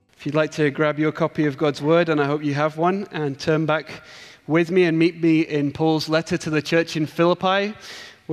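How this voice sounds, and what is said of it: English accent. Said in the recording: “my English accent... it's not a Scottish accent... it's not a Hoik accent”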